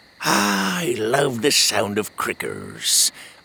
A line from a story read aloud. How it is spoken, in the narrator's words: Otis had said